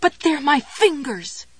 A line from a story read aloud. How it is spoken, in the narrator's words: she cried